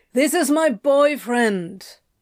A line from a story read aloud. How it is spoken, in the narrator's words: Crowley shouted back